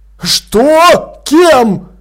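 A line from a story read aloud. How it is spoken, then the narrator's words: Shouted. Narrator (Russian): крикнул Блуз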